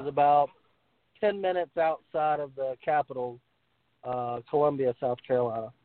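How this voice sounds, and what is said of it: Southern American accent. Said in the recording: “You got that great accent. ... We got a good old Southern boy on.”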